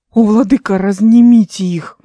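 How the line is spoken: Exclaiming. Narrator (Russian): воскликнул Даниэль

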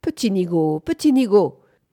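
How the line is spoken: Shouted. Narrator (French): cria Bunford

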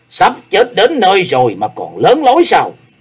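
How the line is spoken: Roaring. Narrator (Vietnamese): Hải Ma giáo chủ gầm lên

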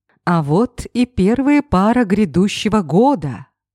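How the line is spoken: Loud announcement into microphone. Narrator (Russian): громко объявил в микрофон он

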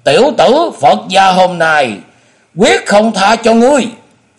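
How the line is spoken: Shout. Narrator (Vietnamese): Trong tiếng thét

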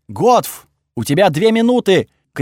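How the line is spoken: Full-throated shout. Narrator (Russian): крикнул я во всю глотку

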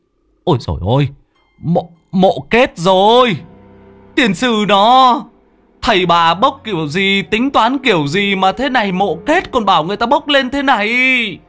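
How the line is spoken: Shrieking cry. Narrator (Vietnamese): Người trên bờ có người biết rú lên một tiếng

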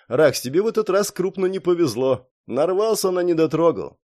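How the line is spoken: Snorting grunt. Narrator (Russian): хмыкнул

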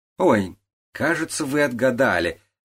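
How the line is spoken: Excited exclamation. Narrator (Russian): воскликнула Яуджи

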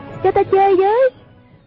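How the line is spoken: Crying out. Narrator (Vietnamese): kêu lên

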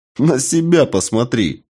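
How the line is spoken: Laughing. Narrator (Russian): рассмеялся я

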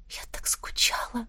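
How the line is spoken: Quiet repetition. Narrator (Russian): повторила я тихо

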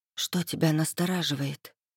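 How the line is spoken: Barely audible whisper. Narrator (Russian): спросила шепотом на грани слышимости

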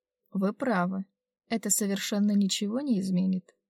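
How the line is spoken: Even, level tone. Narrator (Russian): произнесла Делана ровным тоном

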